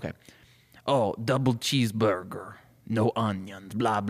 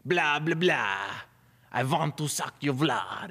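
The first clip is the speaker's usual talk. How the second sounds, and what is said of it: Vampire character voice. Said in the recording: “let me do my vampire voice.”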